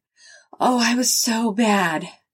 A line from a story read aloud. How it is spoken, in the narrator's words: Sharon moaned